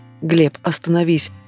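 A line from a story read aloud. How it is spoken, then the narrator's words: Tearful whisper. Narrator (Russian): шепчу сквозь слезы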